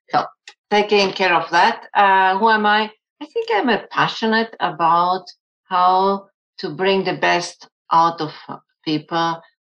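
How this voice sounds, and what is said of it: German and Spanish influenced accent. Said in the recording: “accent. People are always trying to guess where my accent is from. So, um, my uh, first language was German, but I grew up in a Spanish speaking country”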